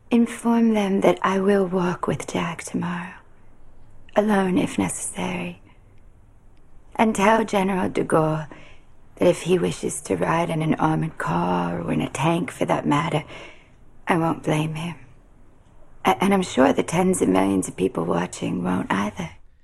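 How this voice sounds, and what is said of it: Convincing Jackie Kennedy accent. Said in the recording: “she's really got that accent down, hasn't she?... This is one Long Islander playing another... Jackie Kennedy from the Hamptons”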